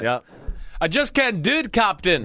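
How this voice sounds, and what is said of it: Good put-on Scottish accent. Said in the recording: “It's a really good Scottish accent.”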